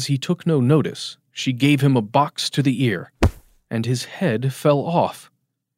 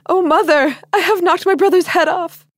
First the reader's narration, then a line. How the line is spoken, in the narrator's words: cried and screamed and would not cease